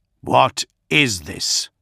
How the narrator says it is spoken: Gilliman snarled

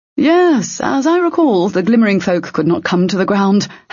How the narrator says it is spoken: Hessler said, his voice going up in pitch ever so slightly despite himself

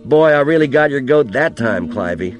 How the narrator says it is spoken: the old man to laugh, to say

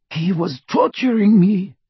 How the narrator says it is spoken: gasped

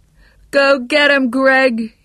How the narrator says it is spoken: yelled

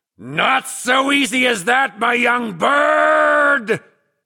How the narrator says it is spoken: howled

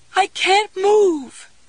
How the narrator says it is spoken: she wailed

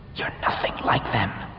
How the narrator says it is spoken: hissed

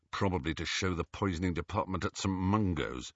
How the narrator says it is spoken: said Ron under his breath

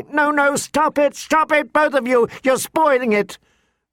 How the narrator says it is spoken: Sansa was shrieking

